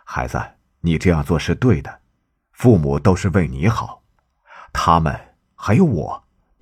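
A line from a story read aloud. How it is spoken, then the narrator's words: Warm, smiling. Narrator (Chinese): 圣地亚哥微笑着说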